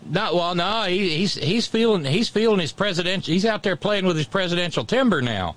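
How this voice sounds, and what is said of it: Usual voice. Nothing is said of it.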